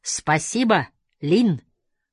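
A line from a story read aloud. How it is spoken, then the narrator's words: Shout through open window. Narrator (Russian): крикнул мне Хасан через открытое окно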